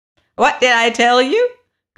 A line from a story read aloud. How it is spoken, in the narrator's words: cried with a cackle of triumph